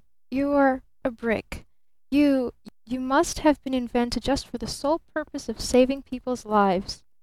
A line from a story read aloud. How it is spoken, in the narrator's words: he stammered